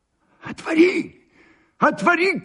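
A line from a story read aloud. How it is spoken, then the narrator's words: Trembling shout. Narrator (Russian): крикнул Андрей Ефимович, дрожа всем телом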